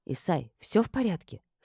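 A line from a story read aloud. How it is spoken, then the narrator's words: Plain. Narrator (Russian): спросила я его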